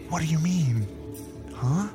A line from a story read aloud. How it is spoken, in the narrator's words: I whispered back